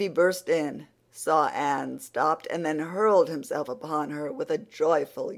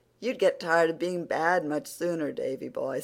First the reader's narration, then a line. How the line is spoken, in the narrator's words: said Anne